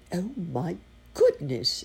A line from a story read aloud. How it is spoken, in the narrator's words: exclaimed Uncle Wiggily